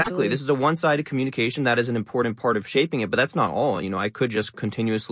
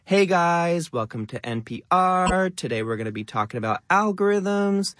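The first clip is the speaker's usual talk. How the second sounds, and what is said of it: Influencer voice with rising up-talk. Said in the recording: “the most famous sort of lifestyle influencer accent ... It has that up-talk. It has the rising tone.”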